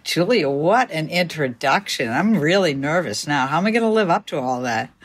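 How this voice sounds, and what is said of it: Boston accent. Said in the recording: “she's got the best Boston accent ever.”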